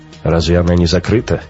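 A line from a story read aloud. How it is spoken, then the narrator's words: Hmph. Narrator (Russian): Раухер хмыкнул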